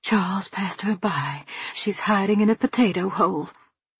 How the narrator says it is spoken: whispering

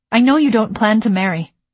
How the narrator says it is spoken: I blurted out

